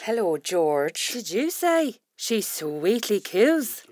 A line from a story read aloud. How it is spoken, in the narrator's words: her assistant Estelle sweetly coos